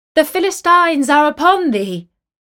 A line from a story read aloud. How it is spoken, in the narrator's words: she cried